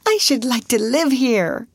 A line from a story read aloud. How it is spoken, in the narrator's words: cried Lottie